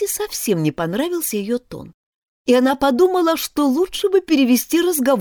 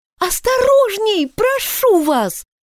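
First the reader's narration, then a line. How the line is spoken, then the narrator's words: Frightened scream. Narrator (Russian): закричала Алиса от страха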